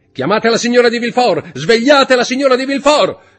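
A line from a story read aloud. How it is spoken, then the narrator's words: Prosecutor shouting. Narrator (Italian): gridò il procuratore del re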